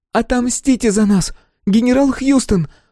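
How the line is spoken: Fear-choked, barely audible shriek. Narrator (Russian): Взвизгнула Сибил, но горло у нее перехватило от страха, и крик получился еле слышный

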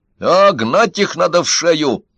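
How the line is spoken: Shout. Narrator (Russian): закричал Синицкий

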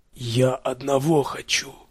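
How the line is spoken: Barely audible whisper. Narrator (Russian): произнес вдруг Рент еле слышным, точно шелест ветра, шепотом

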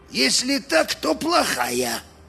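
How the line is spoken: Muttering. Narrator (Russian): пробурчал Мозес Карвер

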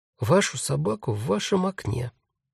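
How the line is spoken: Quiet but very firm. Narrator (Russian): сказал Дариус, тихо, но очень твердо

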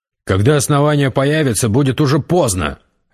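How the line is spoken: Sharp. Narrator (Russian): резко сказал Гессер

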